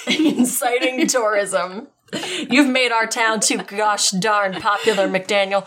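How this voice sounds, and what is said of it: Put-on Southern American accent. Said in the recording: “I am doing a southern accent.”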